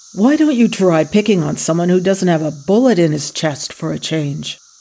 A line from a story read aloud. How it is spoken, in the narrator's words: Paul groaned